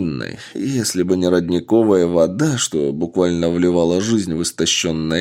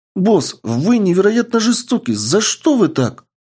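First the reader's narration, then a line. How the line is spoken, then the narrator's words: Exclamation. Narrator (Russian): воскликнула Энн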